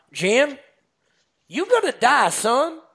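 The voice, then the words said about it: Put-on Southern US accent. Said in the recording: “he go in his you know, southern accent, and I'll try my southern accent for the nation here”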